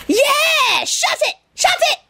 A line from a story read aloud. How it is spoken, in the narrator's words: the monkey screamed